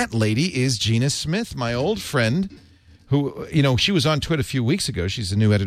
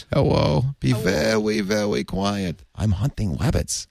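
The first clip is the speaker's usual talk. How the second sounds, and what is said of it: Elmer Fudd impression. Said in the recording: “You look like Elmer Fudd... I can't do that voice.”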